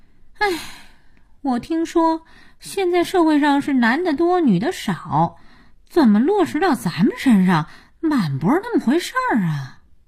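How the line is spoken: Sighing. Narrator (Chinese): 佳音叹气

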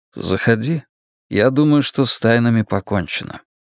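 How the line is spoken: Calm reply. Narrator (Russian): Стью, который спокойно ответил

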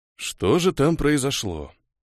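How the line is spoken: Sighing. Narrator (Russian): вздохнул

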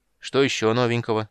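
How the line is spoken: Gloomy, expecting bad news. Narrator (Russian): мрачно спросил Карамон, всем своим видом показывая, что ничего хорошего он не ждет

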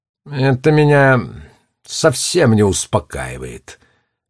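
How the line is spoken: Sighed. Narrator (Russian): вздохнул директор

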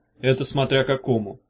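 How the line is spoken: Calm correction. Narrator (Russian): спокойно поправил Багров

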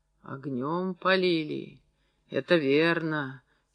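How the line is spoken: Quiet, submissive reply. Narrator (Russian): тихо и покорно отозвался Устин

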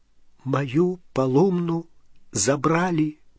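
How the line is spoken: Whispered. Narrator (Russian): прошептал он

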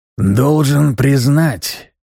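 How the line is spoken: Grumbling inner voice. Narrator (Russian): проворчал герцог внутри меня

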